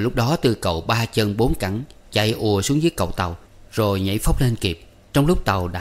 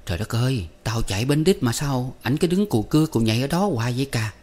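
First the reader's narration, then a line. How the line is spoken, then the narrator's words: Nervous muttering. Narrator (Vietnamese): Phấn hồi hộp nói lẩm bẩm một mình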